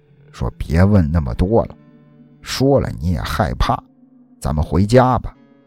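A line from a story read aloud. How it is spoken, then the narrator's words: Lowered voice. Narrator (Chinese): 压低了嗓音说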